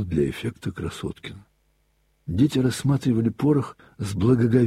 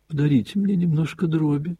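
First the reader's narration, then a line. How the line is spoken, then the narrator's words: Pleading little voice. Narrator (Russian): проговорил Костя умоляющим голоском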